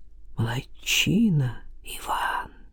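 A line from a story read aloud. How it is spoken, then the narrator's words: Whisper. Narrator (Russian): прошептал Левин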